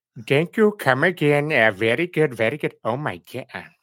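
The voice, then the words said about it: Peter Griffin with Indian accent. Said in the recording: “could you do Peter and an Indian accent? ... making fun of Apu”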